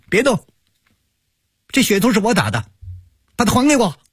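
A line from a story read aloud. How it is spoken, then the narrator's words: Distant boy shouting. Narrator (Chinese): 从不远的地方传来了一个男孩子的喊声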